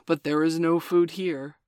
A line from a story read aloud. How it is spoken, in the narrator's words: said Father Wolf stiffly